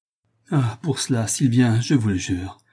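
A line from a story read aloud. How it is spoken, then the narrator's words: Murmuring. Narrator (French): murmura Toinon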